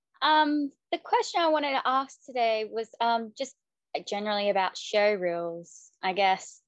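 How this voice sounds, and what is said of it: Hoarse, strained voice. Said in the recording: “losing my voice a bit”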